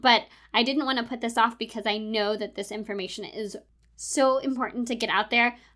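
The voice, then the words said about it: Hoarse, congested voice. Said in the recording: “I have been struggling with a cough and laryngitis and all sorts of chest congestion for the last couple of weeks ... my voice does not sound normal ... my voice sounds a little off this week, it's because of all of the chest congestion I have going on ... my voice is not 100% back to normal”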